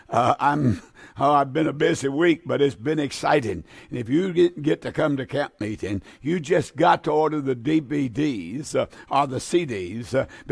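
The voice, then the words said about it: Slightly raspy voice. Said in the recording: “My throat's a little raspy sounding.”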